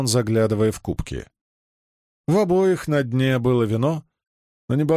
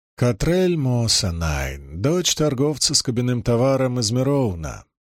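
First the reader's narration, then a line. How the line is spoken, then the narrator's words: Calm matter-of-fact woman. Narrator (Russian): произнесла женщина так спокойно, словно это было известно всем на свете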